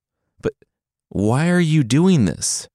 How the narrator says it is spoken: the son pleaded

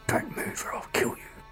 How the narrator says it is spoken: A man whispered angrily

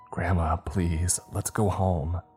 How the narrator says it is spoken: I whispered

